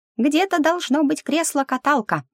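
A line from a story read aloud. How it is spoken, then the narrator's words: Squeaked. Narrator (Russian): пискнул старшенький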